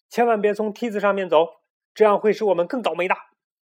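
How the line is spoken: Loud child's shout. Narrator (Chinese): 小胖墩儿高声喊道

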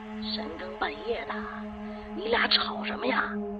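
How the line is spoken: Quiet speech. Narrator (Chinese): 小声的说

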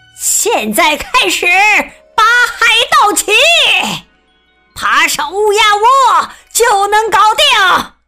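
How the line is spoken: Loud shout. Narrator (Chinese): 鲍斯百里船长大喊道

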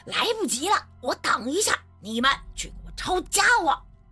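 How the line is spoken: Shouting. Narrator (Chinese): 熊万义嘴里喊道

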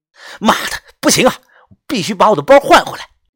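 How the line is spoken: Furious loud shout. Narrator (Chinese): 我气得真是脸色铁青，忍不住的大声喊了一声

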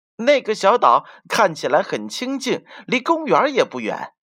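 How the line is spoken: Quacking cry. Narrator (Chinese): 马拉先生嘎嘎的叫道

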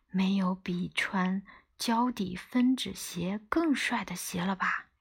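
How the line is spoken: Plain question. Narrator (Chinese): 我问他

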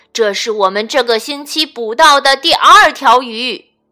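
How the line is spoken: Shouting. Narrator (Chinese): 其中一个人朝他喊着

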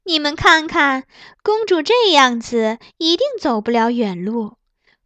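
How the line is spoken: Laughing. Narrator (Chinese): 玉清笑指公主道

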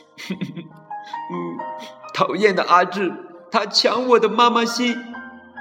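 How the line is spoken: Crying. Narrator (Chinese): 小苹果哭着说

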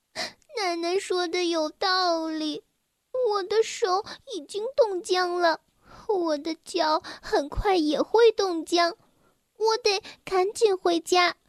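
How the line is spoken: Crying inner thought. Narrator (Chinese): 埃洛阿伊斯哭了起来，他想着

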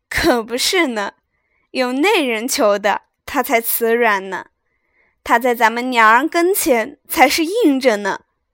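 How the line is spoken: Laughing. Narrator (Chinese): 凤姐笑道

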